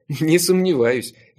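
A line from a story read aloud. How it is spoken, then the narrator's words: Involuntary laugh. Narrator (Russian): я невольно рассмеялся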